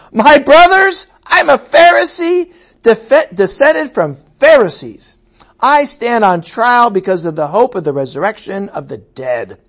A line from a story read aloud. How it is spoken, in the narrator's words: Paul he called out in the Sanhedrin